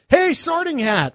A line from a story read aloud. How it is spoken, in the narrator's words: Ron yelled at the Hat